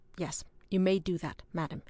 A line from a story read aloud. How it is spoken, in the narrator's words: replied a trifle stiffly